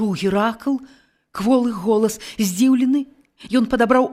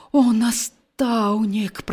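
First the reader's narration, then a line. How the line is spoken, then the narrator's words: Groaning. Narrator (Belarusian): прастагнаў Геракл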